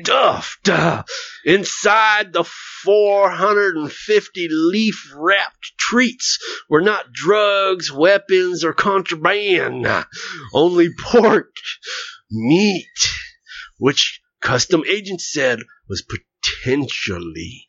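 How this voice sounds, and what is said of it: Preacher voice reading. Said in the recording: “I could do it in my preacher voice, too.”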